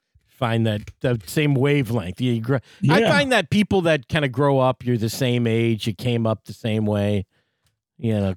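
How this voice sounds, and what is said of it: Strong Midwestern American accent. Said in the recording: “You got that Midwestern accent. ... yours is full on Midwestern ... One step away from Chicago.”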